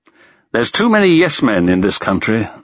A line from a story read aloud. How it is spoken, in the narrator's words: sighed Stalin